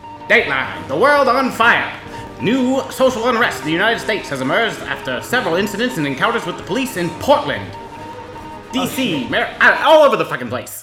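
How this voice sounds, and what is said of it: Old-timey 1920s newscaster voice. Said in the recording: “Do it in a 1920s newscaster voice”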